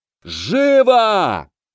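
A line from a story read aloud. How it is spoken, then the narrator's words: Roar. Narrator (Russian): взревел Люц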